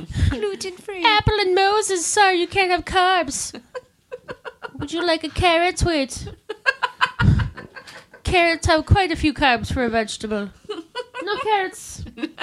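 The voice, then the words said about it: Fake Irish accent. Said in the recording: “You're like faux Irish accent right now.”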